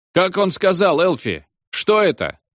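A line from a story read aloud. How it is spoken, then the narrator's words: Shouted. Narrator (Russian): крикнул бармен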